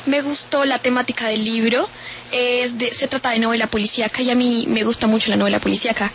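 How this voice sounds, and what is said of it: Bogotá Colombian Spanish accent. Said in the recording (Spanish): “ese acento ... Soy de aquí, de Bogotá ... Acento tan particular, qué acento tan particular”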